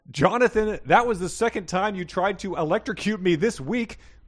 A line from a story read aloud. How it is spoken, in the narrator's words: William yelled